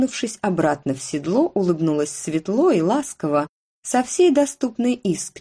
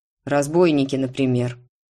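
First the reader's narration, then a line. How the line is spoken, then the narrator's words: Curt, clipped. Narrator (Russian): отрывисто проговорил он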